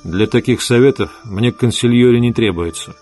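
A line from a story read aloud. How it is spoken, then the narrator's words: Plain. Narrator (Russian): сказал он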